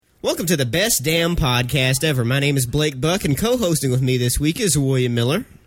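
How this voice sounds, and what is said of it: Sick-sounding voice. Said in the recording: “You sound a little sick there, buddy. ... I'm a little under the weather this week”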